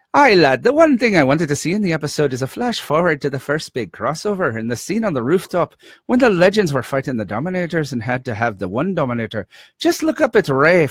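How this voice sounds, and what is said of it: Put-on refined Scottish accent. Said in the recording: “I'll read it with a nice, refined Scottish accent... Let me try to get into character. Scottish”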